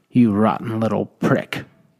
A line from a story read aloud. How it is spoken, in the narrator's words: spat, horrified and irate